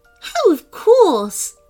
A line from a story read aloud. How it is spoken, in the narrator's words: agreed the unicorn happily